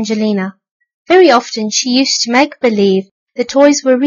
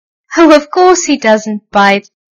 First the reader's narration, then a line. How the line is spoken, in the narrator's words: laughed Miss Mug